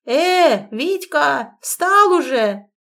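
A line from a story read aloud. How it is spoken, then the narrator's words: Unexpectedly loud shout. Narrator (Russian): неожиданно громко прокричал Степан Игнатьич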